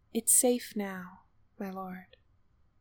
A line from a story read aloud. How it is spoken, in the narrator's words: he said gently